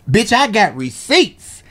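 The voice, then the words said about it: Imitates another person's voice. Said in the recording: “in my best Tasha K voice.”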